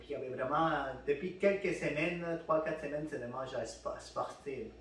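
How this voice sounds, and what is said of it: Slight Spanish accent in French. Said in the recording (French): “j'ai un petit accent espagnol, je suis né au Pérou”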